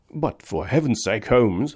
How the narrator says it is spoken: I exclaimed

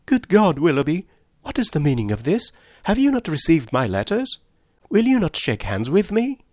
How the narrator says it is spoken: she exclaimed in a voice of the greatest emotion

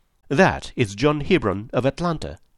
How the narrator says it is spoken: said the lady

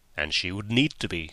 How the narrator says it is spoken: said Holmes gravely

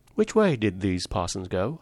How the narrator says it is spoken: asked Valentin

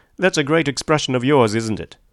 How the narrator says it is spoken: said Tom sharply

